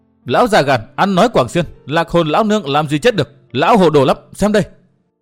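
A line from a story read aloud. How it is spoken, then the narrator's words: Scolding retort. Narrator (Vietnamese): Phụng Liên Thẳng Tiên cô nạt lại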